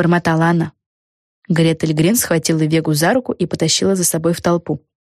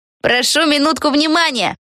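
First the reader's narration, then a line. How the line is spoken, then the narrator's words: Shout. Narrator (Russian): крикнула Пегги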